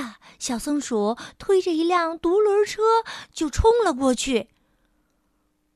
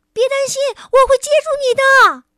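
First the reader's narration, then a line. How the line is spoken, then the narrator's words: Frightened shout. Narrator (Chinese): 小松鼠……惊恐的大叫道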